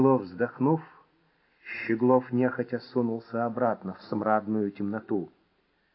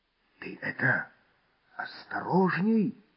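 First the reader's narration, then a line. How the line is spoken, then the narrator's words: Hoarse, suddenly catching himself. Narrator (Russian): спохватившись, прохрипел водитель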